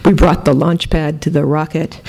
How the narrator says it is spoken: the deep male laughter

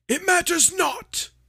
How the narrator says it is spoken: shrieked Voldemort

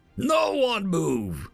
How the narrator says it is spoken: he bellowed

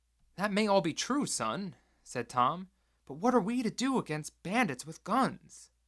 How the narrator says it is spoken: He whimpered a little

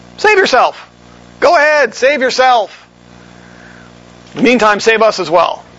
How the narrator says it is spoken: in a mocking tone

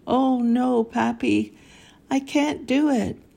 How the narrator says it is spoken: I exclaimed

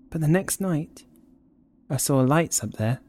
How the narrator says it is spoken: she said

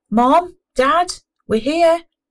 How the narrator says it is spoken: he shouted

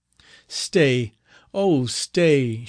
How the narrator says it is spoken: cried, in the accents of despair, bathed them with her tears

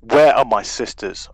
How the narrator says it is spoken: Orash shouts

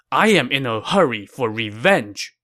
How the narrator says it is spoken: he said angrily

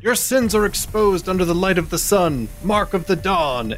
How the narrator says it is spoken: Richter yells out

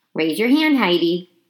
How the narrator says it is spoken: said Mrs

